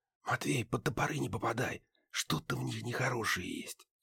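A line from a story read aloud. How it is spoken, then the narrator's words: Whispered. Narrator (Russian): прошептал Муха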